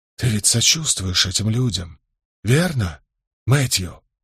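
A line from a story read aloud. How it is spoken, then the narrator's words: Low question after pause. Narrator (Russian): помолчав немного, спросил вполголоса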